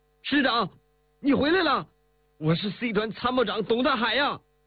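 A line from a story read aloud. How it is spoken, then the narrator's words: Joyful surprised shout. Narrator (Chinese): 那边惊喜地喊道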